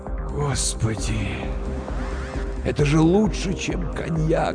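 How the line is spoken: Blissful whisper. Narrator (Russian): Блаженствуя, прошептал

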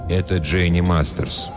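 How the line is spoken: Flat colorless voice. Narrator (Russian): бесцветным голосом произнес Рабин

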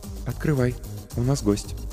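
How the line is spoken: Quiet, from behind. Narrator (Russian): негромко сказала Ольга позади

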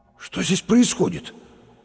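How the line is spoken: Words forced out. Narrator (Russian): выдавил через минуту Лопатиков

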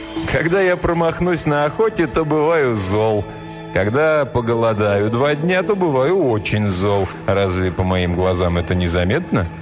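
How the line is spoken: Laughing reply. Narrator (Russian): тот ответил ей, засмеявшись

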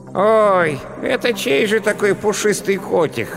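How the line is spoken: Hoarse little voice. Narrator (Russian): раздался рядом хриплый голосок

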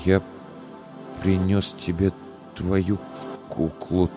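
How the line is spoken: Strained, forced out. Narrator (Russian): только и смог выдавить Илья

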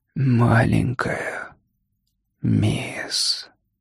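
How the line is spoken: Barely audible whisper. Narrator (Russian): прошептал он так тихо, что никто его не расслышал

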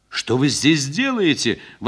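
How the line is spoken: Exclaiming. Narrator (Russian): воскликнула маркитантка

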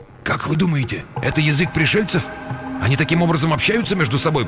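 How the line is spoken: Whispered. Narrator (Russian): прошептал Тамаев Никольскому

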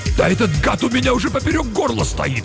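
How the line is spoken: Barking angrily. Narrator (Russian): рявкнул Юров

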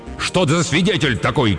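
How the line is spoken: Shouted, losing all composure. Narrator (Russian): крикнул Эдип, окончательно потерявший самообладание

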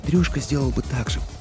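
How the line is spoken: Whispering close to ear. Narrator (Russian): прошептала она у меня над ухом

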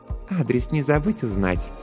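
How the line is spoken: Purring. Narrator (Russian): промурлыкала Жанна

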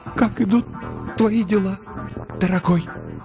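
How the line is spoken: Strained miserable woman. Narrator (Russian): выдавила из себя несчастная

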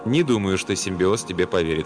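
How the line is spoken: Calm remark. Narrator (Russian): спокойно заметил Сомерсет

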